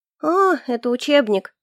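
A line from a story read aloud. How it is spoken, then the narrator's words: Disappointed drawl. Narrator (Russian): расстроенно протянула я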